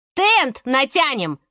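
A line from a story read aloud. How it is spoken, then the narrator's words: Shouted. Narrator (Russian): крикнула Света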